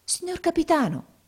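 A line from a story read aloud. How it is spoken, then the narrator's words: Amazed boy exclaiming. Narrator (Italian): esclamò il ragazzo meravigliato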